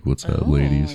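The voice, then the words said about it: Exaggerated deep, low seductive voice. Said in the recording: “I could, like, turn the low end up a little bit and give myself some, like, Barry Manilow”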